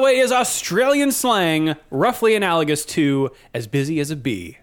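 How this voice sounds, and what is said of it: Usual voice. Nothing is said of it.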